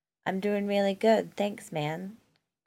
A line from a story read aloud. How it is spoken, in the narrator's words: Chris replied